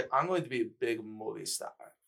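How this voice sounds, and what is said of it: Put-on European-sounding character accent. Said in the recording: “He's the guy with the European accent ... Is that supposed to be a British accent? ... I know the accent you're doing ... Matt Oro does that impression as well”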